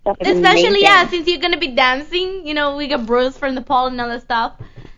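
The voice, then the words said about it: Scottish accent. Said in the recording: “damn Scottish accent of yours. I can't understand anything you're saying.”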